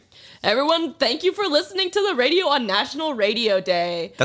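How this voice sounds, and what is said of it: Announcer-style radio voice. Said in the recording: “That's a good radio voice.”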